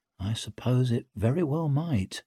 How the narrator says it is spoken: murmured Pike

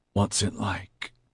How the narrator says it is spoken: he managed to whisper

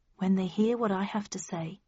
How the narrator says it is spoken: I replied calmly

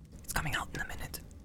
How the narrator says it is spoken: whispered Pippin to Merry

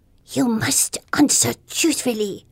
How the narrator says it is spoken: the fairy hisses

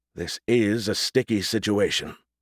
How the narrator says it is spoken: Smythe muttered

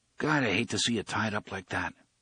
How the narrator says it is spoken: Eddie murmured

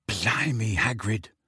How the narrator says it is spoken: said Ron quietly

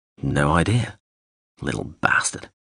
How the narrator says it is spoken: Lamb muttered

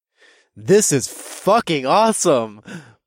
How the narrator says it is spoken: said in a loud, booming voice

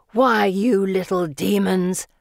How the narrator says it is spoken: Felicity growls

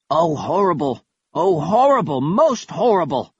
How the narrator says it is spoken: Kaz cried as the alarm went off

